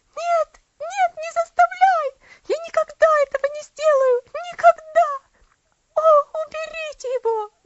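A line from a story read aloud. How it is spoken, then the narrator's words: Terrified scream. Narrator (Russian): закричала она, бросая на него полный ужаса взгляд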